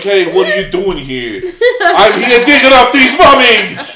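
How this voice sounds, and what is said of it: Bad put-on New Jersey accent. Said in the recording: “A really bad one. It like was a almost New Jersey like a, accent.”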